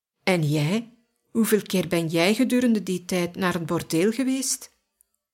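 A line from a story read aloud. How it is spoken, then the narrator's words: Calm question. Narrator (Dutch): Simeon vroeg kalm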